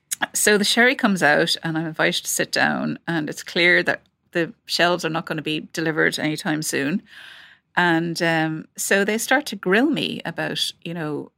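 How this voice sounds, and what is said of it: Irish accent. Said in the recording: “They know, obviously, from my accent that I'm Irish.”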